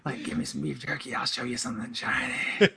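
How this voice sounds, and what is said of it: Creepy put-on character voice. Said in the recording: “Never do that voice again. Don't do that.”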